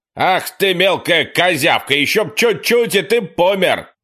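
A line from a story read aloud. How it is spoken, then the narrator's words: Shouted out a window. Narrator (Russian): водитель выкрикнул в окно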